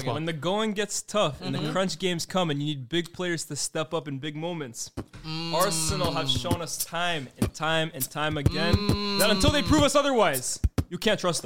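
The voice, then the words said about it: American accent. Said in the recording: “that American accent ... They really like your accent today, man.”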